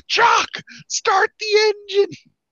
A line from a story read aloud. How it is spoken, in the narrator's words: yelling